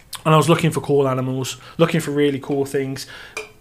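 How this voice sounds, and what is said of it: Birmingham (Brummie) accent. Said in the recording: “People can't understand your Brummie accent.”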